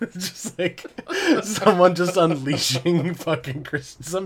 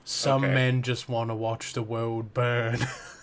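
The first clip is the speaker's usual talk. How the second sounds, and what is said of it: Imitates a film character's voice. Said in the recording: “my Alfred impersonation”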